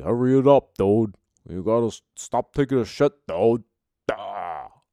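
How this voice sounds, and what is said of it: Poor imitation of another person's voice. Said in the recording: “my shitty Sebastian Maniscalco impression”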